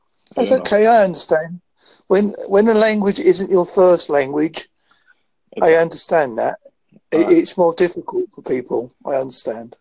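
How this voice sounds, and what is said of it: Strong Essex English accent. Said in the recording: “My accent's quite strong as well. I'm originally come from Essex, but I now live in Devon.”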